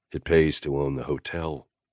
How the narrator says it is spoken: I said dryly

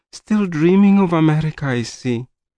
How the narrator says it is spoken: said with a sigh of resignation

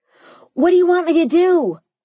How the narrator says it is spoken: I yelled

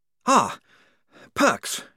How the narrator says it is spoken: he panted

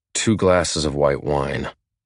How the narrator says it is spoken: I grunt

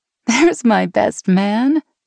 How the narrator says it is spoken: Meg laughed

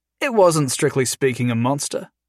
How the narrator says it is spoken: Jason said evenly

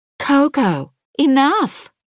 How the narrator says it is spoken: she shouts

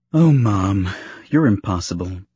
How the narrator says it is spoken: she said with a sigh of surrender

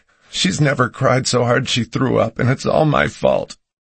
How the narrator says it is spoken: she sobbed

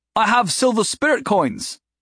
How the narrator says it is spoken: Mobley shouted

